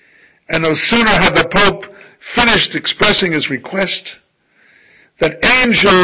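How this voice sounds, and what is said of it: Usual voice. Nothing is said of it.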